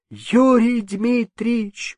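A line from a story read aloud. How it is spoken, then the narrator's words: Sobbing. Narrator (Russian): продолжал он, всхлипывая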